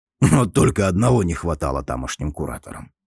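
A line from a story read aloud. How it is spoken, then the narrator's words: Wry scoff. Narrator (Russian): хмыкнул старый, который, наконец, отошел от неприятных воспоминаний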